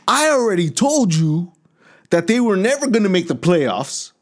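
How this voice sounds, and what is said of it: Imitates another person's voice. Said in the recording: “I'll be Lewis real quick”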